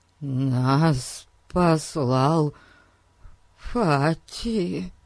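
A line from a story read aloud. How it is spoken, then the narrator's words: Fearful mumble, near tears. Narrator (Russian): промямлил бедный Эрн, чуть не плача от страха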